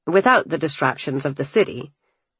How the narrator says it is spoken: Alexander grumbled, like a curmudgeon

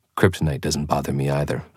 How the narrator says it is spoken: I said quickly

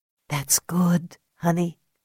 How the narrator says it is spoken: whispered

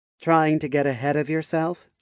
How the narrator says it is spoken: she asked, in a teasing tone

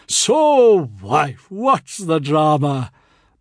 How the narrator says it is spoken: he boomed cheerfully

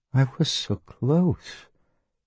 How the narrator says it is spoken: Brendan said dreamily

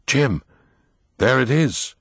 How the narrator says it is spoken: shivering, Will cried

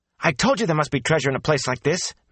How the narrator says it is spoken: Matt exclaimed

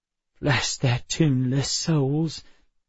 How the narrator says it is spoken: Emma said, laughing softly

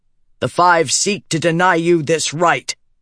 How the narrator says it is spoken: Eshenai bellowed

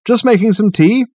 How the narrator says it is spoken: he called out

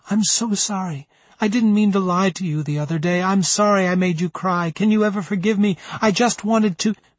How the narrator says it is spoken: I whimpered

